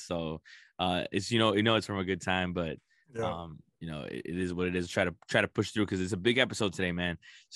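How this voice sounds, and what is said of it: Worn, strained voice. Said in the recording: “If you can tell by my voice a little bit, it's a little, you know, it's a lot of yelling and a lot of laughing caused this.”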